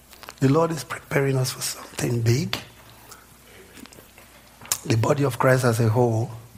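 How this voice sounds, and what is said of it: Strained, failing voice. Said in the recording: “bear with me if I lose my voice. I've been screaming a lot. So I'm getting my voice back.”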